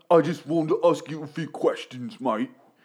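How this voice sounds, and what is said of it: Put-on British accent. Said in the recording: “oh, he's British ... That's a flawless accent of that dude.”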